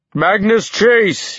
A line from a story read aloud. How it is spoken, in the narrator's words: he called out